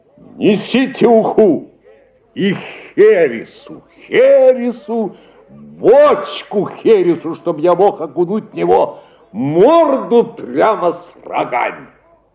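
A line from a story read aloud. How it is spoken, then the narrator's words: Shouting across the hall. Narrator (Russian): Услужающий закричала на всю залу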